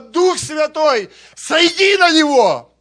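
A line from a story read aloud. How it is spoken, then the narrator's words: Screaming with full force. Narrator (Russian): она просто со всей силы закричала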